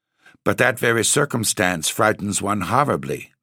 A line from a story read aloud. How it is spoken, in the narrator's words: said Carmilla